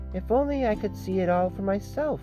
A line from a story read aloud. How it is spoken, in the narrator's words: he cried